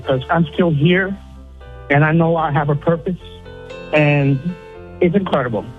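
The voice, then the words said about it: Emotional, tearful voice. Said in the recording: “now I'm getting a little emotional. I'm crying a little bit”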